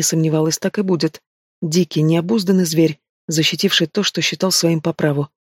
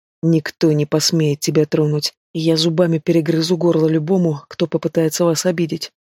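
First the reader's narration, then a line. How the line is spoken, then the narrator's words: Grim promise. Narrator (Russian): мрачно пообещал тот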